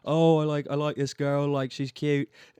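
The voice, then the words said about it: Put-on British, mostly Irish accent. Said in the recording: “I have never heard you do a British accent ... was like mostly Irish”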